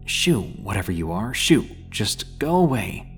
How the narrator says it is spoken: said almost in a whisper

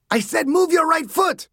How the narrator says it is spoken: Sanchez screamed

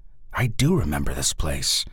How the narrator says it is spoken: he said

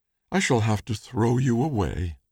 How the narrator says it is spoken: said the baker sadly

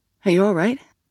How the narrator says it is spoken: Sal asked Grace

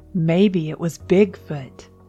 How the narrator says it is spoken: Toby laughed

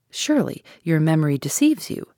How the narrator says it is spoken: said I

